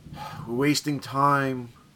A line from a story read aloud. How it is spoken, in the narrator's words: muttered Salvaggio